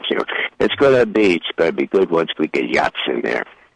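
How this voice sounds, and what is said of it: Imitates another person's voice. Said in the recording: “you do a really good impression of Victoria Nuland. You sound just like...”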